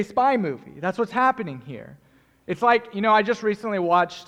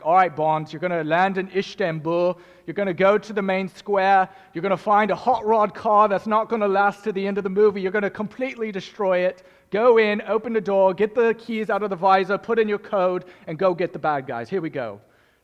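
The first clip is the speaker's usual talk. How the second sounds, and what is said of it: Deliberately bad put-on accent. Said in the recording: “It's a terrible accent, I know, but it's the best I can do”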